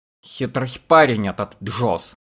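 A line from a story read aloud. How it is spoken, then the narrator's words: Mutter. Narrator (Russian): пробормотал Эрвис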